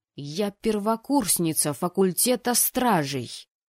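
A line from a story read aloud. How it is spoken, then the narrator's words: Growled. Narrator (Russian): Прорычала я парню в лицо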